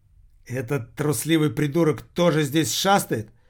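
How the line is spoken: Exclamation. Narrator (Russian): воскликнул Виктор

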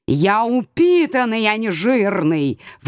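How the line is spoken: Howl. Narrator (Russian): взвыл

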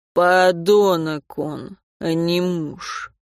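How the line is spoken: Through gritted teeth. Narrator (Russian): процедил Борис

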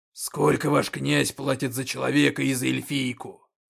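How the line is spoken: Roaring orc. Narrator (Russian): проревел орк

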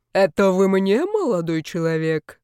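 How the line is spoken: Booming respectable neighbor. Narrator (Russian): прогудел почтенный сосед

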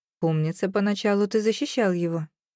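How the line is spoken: Dry blurt. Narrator (Russian): сухо ляпнула я

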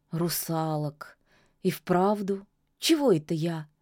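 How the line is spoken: Sad smiling witch. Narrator (Russian): грустно улыбнулась ведьма

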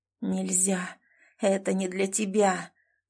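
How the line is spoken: Cold inner whisper. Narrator (Russian): прошептал внутри холодный, знакомый голос

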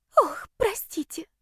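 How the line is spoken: Breathy. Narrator (Russian): выдохнула она

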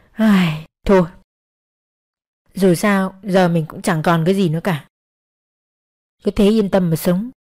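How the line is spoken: Sighing. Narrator (Vietnamese): Nàng thở dài

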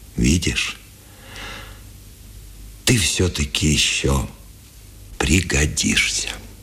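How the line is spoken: Sighing. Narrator (Russian): Вздохнул и сказал

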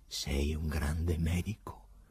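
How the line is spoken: Quiet, in Greek. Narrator (Italian): disse piano in greco Pilato

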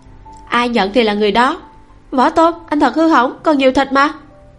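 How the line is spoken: Laughing exclamation. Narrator (Vietnamese): La Hân Nhiên cười lớn, lại kêu lên

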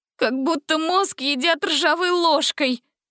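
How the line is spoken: Whining. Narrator (Russian): скулила Гретель

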